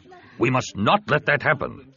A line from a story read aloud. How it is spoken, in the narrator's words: Ta said firmly